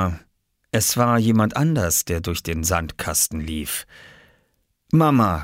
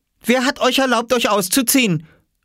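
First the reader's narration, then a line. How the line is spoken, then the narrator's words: Calling out. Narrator (German): rief sie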